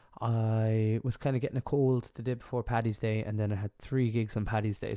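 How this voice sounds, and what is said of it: Congested, stuffed-up voice. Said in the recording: “as you can hear, I'm a bit under the weather. Like, my voice is a bit, I'm a bit stuffed up.”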